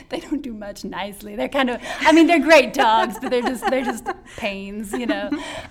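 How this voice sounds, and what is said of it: Rural country accent. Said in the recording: “I'm from the country, if you can't tell by my accent.”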